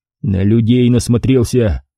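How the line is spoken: Answered through clenched teeth. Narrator (Russian): сквозь зубы ответил Пятницкий

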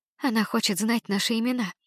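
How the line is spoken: Muffled whisper after pause. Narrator (Russian): После небольшой паузы она закрыла трубку рукой и прошептала

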